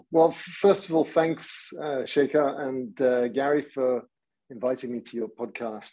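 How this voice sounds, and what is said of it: English accent. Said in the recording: “as you can tell from my accent, I don't come from around here. I grew up in England”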